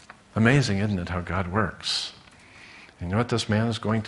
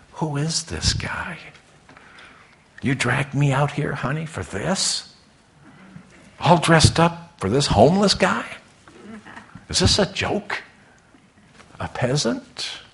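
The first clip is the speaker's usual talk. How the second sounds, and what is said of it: Whispering. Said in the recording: “whisper”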